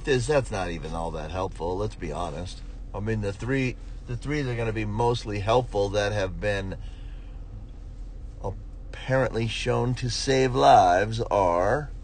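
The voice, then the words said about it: Flat, monotone, slightly unwell voice. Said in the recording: “I'm a little under the weather today, so my voice is probably... I sound a little more monotone than usual, which I usually sound monotone”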